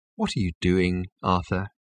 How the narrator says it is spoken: He asked quietly

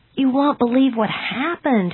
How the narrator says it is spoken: he exclaimed

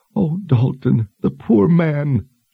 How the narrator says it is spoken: sobbed

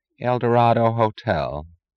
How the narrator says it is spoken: said a woman's drowsily resentful voice

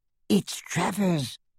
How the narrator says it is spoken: hissed the goblin into Harry's ear

